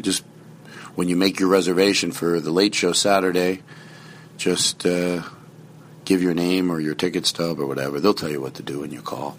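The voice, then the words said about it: Whispering, mellow voice. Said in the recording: “Why am I whispering? I'm in a mellow mood.”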